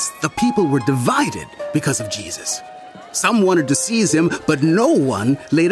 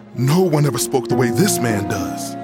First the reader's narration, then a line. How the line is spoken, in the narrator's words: the guards replied